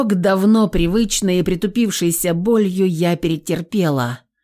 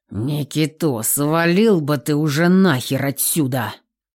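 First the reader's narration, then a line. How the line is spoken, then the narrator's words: Growled. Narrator (Russian): прорычал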